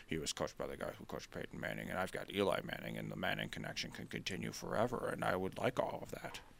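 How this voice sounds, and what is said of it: Dark, muttery impression voice. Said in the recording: “I feel like I was going more Bill Belichick-y in there. It was like darker and muttery.”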